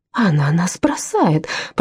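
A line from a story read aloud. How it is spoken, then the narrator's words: Groaning. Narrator (Russian): простонала Анна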